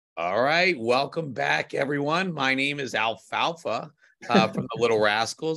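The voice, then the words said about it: Croaky, hoarse voice. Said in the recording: “I have a frog in my throat.”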